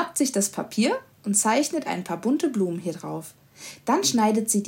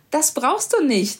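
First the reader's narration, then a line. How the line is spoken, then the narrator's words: Laughing. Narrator (German): lacht Mama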